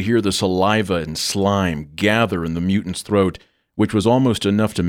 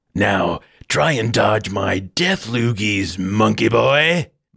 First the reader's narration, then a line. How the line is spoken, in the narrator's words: the creature concluded menacingly, almost grinning with sadistic pleasure